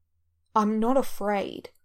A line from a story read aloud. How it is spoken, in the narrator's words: snaps